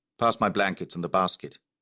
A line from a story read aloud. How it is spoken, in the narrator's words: said the white man curtly